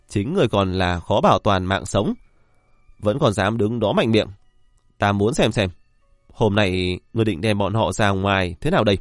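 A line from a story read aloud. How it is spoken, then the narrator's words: Gloating loud laugh. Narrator (Vietnamese): Triệu Thiên Giận đắc ý cười lớn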